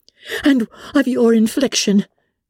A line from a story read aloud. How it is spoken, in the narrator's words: cried Elizabeth with energy